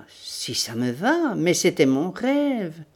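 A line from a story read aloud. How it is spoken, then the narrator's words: Sneering laugh. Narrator (French): Il ricana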